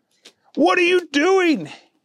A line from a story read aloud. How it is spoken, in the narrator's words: yelled Henry